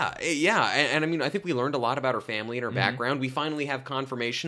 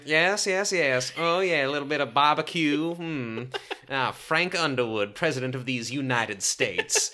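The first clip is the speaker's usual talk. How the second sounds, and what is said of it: Put-on vague Southern US accent. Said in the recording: “I don't know if that's exactly a Texan accent... It just kind of moved into that direction. I have one vaguely southern accent... That was more Georgian, I feel like southern Belish”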